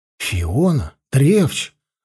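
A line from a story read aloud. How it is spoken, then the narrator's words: Confused question. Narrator (Russian): растерянно спросил Карнел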